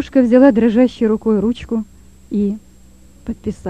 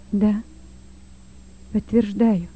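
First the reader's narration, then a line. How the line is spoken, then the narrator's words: Muffled, dull. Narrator (Russian): глухо ответила девушка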